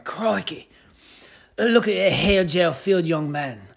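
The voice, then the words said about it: Weak put-on wildlife-narrator accent. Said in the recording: “I can't even do a good accent of anything. It's pretty pathetic.”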